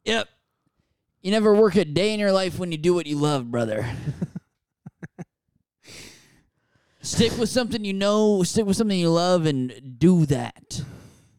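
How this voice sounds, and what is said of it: Imitates a mohel's voice. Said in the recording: “my impression of that moil who does that certain type of circumcision ... my impression of that guy”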